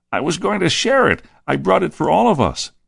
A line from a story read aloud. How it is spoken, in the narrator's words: pleaded Judas again